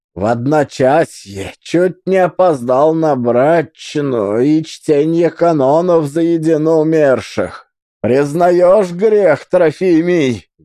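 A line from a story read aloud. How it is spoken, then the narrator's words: Menacing question. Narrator (Russian): грозно спросил начетчик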